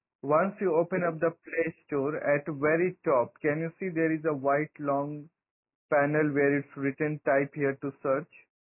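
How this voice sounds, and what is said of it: Noticeable accent, words hard to catch. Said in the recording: “it's your accent.”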